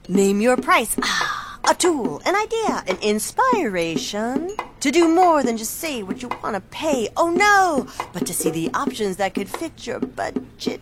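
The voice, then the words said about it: Beat poet impression. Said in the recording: “this is my impression of a beat poet”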